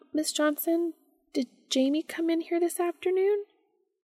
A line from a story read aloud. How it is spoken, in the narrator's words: Sophie said nervously